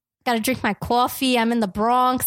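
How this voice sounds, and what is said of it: Put-on nasal New York accent. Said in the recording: “I feel like I have a pretty good New York accent ... smiling ruins a New York accent ... gotta shout ... Gotta talk a little bit more nasally out here.”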